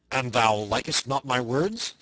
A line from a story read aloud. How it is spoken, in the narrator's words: said the other fiercely